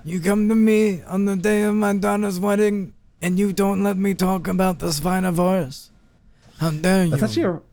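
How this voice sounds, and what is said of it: Vito Corleone impression. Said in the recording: “I imagine Don Vito Corleone. ... That's actually a really good impression.”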